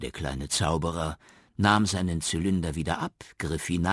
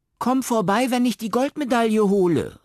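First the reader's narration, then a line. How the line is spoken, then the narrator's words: Calling after someone. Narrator (German): rief Benjamin ihm nach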